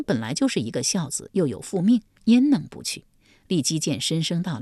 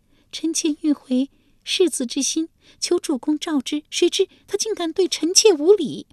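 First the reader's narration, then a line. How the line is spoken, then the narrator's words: Bursting into tears. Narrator (Chinese): 丽姬呜的一声哭了出来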